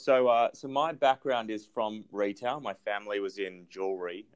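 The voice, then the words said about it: Australian accent. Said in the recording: “my accent is Australian”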